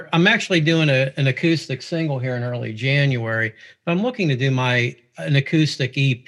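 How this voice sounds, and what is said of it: Pittsburgh accent. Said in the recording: “Obviously, you could tell from my accent. I'm here originally from Pittsburgh”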